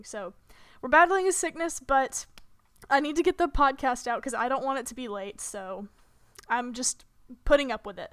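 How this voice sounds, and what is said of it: Hoarse, sore-throated voice. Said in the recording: “my throat was very, very sore today... I hope that my voice doesn't go out... I apologize in advance if I sound stupid, or if my voice just kind of, like, goes out for a second”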